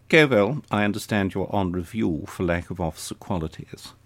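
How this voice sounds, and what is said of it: Clipped Etonian upper-class accent. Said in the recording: “in the clipped Etonian accent”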